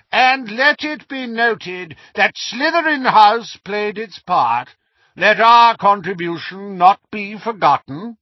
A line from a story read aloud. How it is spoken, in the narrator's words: Phineas Nigellus called in his high, reedy voice